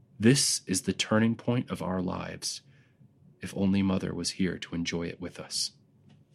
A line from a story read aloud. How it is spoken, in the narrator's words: he said gravely